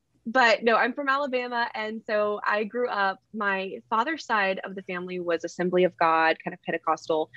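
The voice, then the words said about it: Heavy Southern US accent. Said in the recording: “I'm from Alabama. I know you can hear my very heavy accent.”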